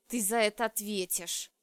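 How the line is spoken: Growled. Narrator (Russian): прорычал Медноволосый

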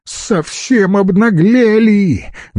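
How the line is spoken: Loud shrill squeal. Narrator (Russian): громко заверещала официантка

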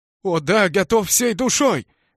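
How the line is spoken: Sorrowful exclamation. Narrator (Russian): воскликнул я горестно

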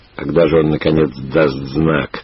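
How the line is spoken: Quiet grumble. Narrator (Russian): тихо проворчал Брут

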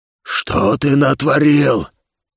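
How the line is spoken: Angry growl. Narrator (Russian): Рыкнул он

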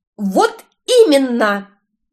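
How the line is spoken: Wild yell, then quieter. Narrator (Russian): заорала, как блаженная я, но тут же заставила себя убавить тон

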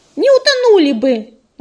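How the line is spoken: Squirrel snapping back. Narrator (Russian): огрызнулась белочка

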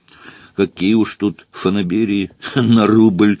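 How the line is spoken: Sighing. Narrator (Russian): вздохнул Фондорин

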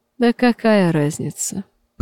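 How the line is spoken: Muttering. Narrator (Russian): пробормотал сапожник

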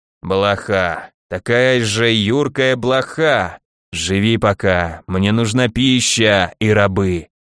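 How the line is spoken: Sad sigh, creaky voice. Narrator (Russian): С печальным вздохом проскрипел некромант

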